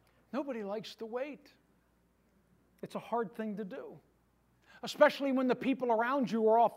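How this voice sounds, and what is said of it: Usual voice. Nothing is said of it.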